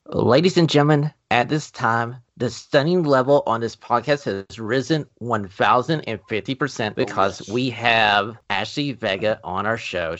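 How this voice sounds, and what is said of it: American accent. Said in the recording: “Forgive my American accent here.”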